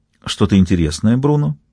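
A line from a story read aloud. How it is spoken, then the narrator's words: Very tender question. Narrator (Russian): нежнейшим голосом спросила Мари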